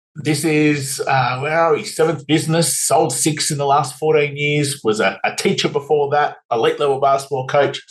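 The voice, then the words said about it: Australian accent. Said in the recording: “as people could probably hear, we've got different accents. So I'm down here in Australia, in Sydney”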